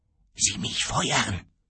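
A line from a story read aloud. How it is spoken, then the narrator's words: Hoarse meaningful whisper. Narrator (German): flüsterte heiser mit einem zweiten bedeutungsvollen Augenzwinkern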